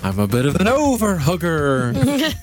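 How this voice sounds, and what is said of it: Impersonation of a ghost. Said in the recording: “that impersonation of a ghost”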